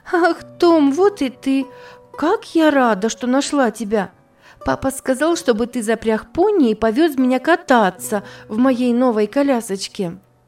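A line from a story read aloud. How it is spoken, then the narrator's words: Exclaiming. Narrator (Russian): воскликнула она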